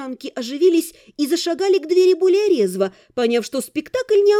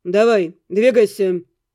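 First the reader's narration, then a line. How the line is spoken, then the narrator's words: Rude, gruff. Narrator (Russian): грубо обратился к гонцу Эддингтон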